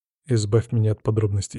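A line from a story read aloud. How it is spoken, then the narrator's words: Calm. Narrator (Russian): спокойно отвечаю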